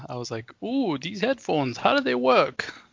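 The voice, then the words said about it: Poor put-on Australian accent. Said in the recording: “Is that your uh, Australian accent? ... Yeah, it was like a terrible accent.”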